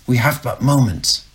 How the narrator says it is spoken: snapped Bosun

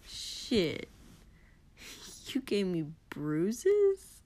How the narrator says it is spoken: Kotsky chuckled

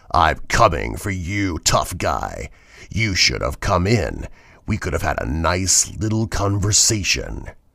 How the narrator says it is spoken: a low, rumbling laugh built until a deep, raspy voice said

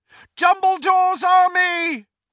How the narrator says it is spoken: he shouted

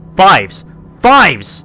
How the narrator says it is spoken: I heard my brothers shouting as they zoomed away from the island

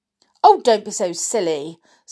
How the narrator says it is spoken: said her mother sharply

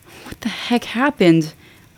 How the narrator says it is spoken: I groaned

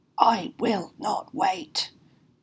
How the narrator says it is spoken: snarled the dark spectre

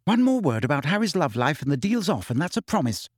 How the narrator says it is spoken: said Hermione irritably

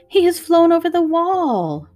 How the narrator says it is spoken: Mary cried out

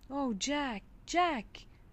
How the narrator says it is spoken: cried Peterkin

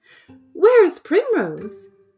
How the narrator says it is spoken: Lady Woodmouse cried out in alarm

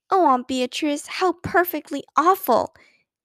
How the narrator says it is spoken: exclaimed Beezus, with a touch of admiration in her voice

